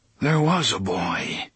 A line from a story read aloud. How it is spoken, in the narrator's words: the gunslinger said in a distant, muttering voice